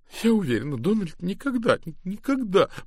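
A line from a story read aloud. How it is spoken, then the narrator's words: Woman sobbing. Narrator (Russian): всхлипывала женщина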